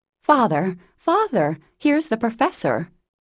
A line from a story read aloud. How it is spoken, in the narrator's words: Joe cried out with a scandalized face